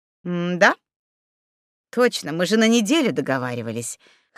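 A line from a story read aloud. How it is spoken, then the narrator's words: Snorting chuckle. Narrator (Russian): хмыкнул Савелий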